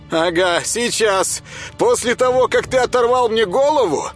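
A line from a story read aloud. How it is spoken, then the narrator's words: Shouted reply. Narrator (Russian): крикнул в ответ ему Боженька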